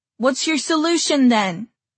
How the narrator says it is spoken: someone else shouted

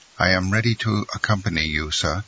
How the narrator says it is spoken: said Maximilian

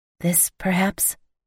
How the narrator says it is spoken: I asked softly

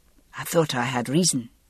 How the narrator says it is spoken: he said softly

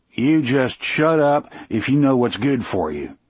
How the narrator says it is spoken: Brutal growled

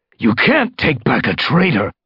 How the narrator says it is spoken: Darkstripe spat

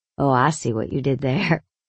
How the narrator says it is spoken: he laughed

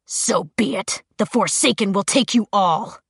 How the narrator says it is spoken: Jace seemed to snarl

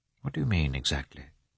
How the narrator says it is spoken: asked Karenin in a low tone

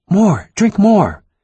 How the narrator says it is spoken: My mother-in-law was all smiles, exclaiming

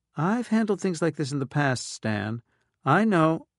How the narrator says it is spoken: Stiffly, she said

